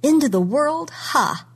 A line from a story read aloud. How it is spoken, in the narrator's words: she said, and she laughed